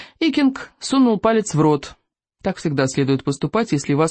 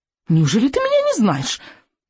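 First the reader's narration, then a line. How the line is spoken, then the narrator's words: Squeaking. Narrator (Russian): пищал Зигзагирастик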